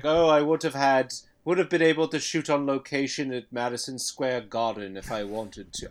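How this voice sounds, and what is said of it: Put-on British accent. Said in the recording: “I'm giving a British accent.”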